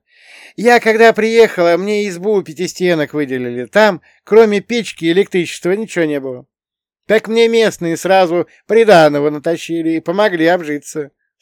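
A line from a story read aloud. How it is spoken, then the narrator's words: Laughing. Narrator (Russian): снова рассмеялся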